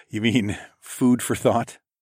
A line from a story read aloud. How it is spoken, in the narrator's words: I chuckled